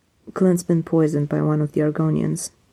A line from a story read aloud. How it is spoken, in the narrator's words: he said in a monotone rush